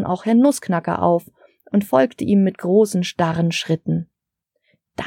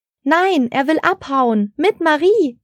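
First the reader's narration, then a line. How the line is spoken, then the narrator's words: Shouting over chaos. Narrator (German): rief Frau Engel über das Chaos auf dem Baum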